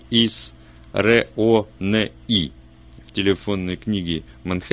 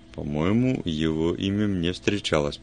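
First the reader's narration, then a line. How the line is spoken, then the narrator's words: Muttered. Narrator (Russian): пробормотал Вульф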